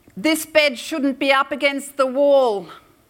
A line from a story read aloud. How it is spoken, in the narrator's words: They contemporaneously yelled